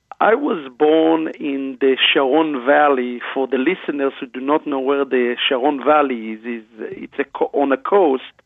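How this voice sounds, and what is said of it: Israeli accent. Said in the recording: “that is a beautiful Israeli accent that I hear.”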